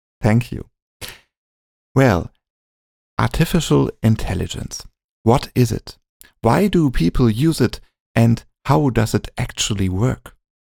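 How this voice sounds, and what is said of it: Non-native English accent. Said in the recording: “English is not my native language, so bear with my accent.”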